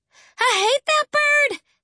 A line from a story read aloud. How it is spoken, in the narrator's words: she hollered, tears sending little rivers of mascara down her cheeks